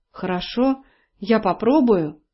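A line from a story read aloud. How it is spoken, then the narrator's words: Mumble. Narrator (Russian): пробормотала Элли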